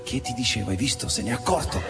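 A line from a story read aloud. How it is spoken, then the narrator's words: Hushed pale girl's murmur. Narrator (Italian): Una ragazza sommessa mormorò col viso smorto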